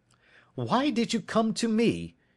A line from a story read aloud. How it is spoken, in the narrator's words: he cried